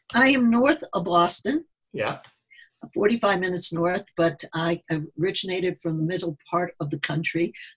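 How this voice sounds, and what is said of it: Mild Midwestern American accent. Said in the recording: “my accent sounds more Midwestern until I talked to some of my New Englanders here”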